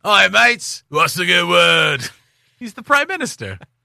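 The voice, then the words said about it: Put-on Australian accent. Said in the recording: “that is an easy one to put an Australian accent ... it ... on.”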